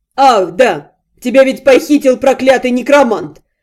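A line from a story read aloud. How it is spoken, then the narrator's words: Roaring. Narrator (Russian): Взревел братец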